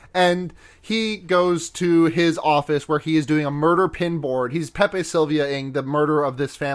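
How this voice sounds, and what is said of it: Usual voice. Nothing is said of it.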